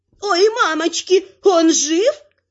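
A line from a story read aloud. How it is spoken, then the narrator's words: Howling wail. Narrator (Russian): взвыла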